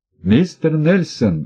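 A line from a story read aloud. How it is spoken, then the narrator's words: Exclaimed. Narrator (Russian): воскликнул я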